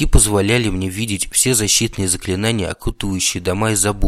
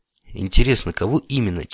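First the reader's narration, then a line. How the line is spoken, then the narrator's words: Quiet. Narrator (Russian): тихо сказал я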